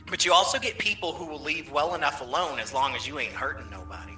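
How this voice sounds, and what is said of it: Southern twang with sarcasm. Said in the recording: “that's twang and sarcasm together.”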